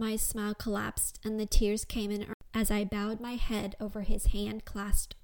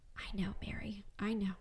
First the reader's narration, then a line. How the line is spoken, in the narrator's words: he whispered into my ear